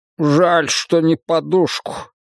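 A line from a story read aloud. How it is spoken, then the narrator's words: Annoyed grumble. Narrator (Russian): с досадой пробурчал де Розио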